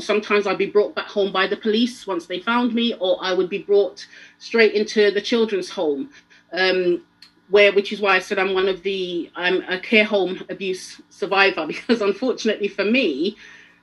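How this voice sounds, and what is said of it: Very fast rushed speech. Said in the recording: “I'm talking really fast ... You can slow down ... you can slow it down”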